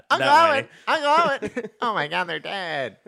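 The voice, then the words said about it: Whiny Luke Skywalker impression. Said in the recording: “He was Luke Skywalker whiny ... my Luke Skywalker impression ... not great”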